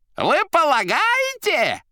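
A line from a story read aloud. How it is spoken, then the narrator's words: Yelled. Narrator (Russian): заорал Фагот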